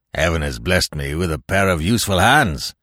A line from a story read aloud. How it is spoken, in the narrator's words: said the seaman, grimly